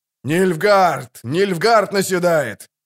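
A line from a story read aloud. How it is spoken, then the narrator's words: Yelling at full lungs. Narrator (Russian): заорал он, что было сил в легких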